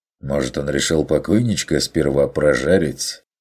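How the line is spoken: Smirking snort. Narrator (Russian): хмыкнул охотник

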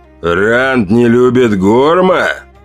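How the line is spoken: Growl. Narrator (Russian): прорычал неандерталец

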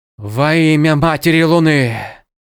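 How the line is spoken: Breathed out. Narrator (Russian): Выдохнул Джаред

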